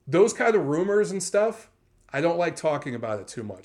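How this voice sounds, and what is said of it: Hoarse, strained losing voice. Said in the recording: “I'm still losing my voice after traveling for a week on the East Coast and being in snowstorms”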